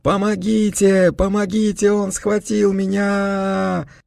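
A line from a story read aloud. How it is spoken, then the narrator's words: Terrified shrieking. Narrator (Russian): вопить мог только человек, перед которым разверзлись врата ада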